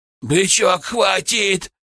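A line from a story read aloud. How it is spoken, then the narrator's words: Goat's sudden shout. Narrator (Russian): вдруг крикнул козел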